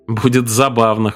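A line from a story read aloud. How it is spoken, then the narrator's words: Snorting. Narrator (Russian): хмыкнул Арчер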